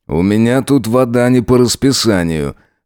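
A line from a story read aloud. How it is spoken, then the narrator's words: Snort. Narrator (Russian): хмыкнул он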